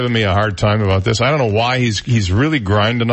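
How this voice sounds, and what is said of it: Usual voice. Nothing is said of it.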